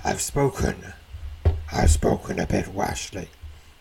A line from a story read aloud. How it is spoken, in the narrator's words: he says in a deep, rumbling voice